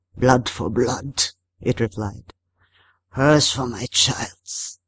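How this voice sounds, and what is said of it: Hoarse, thick-accented creature voice. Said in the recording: “hoarse, waterlogged, speaking in an accent so thick it took a moment for me to understand it”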